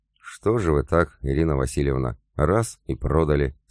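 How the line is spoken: Plain question. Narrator (Russian): спросил я

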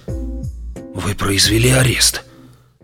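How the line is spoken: Whispering. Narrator (Russian): прошептал он

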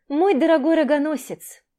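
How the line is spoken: Seriously, then a chuckle. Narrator (Russian): Так же серьезно сказала Маша, но не сдержалась и хохотнула

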